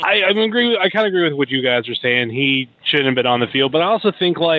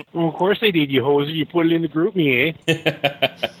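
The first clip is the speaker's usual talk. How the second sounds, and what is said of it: Put-on Canadian accent. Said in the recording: “That wasn't very Canadian. Okay, I'm done with the accent. ... should do the accent the entire show.”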